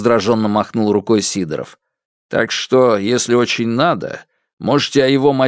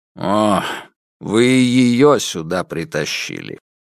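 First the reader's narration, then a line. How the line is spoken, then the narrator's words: Sigh. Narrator (Russian): вздохнул Сидоров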